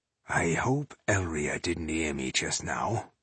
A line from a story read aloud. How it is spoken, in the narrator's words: he muttered into his beard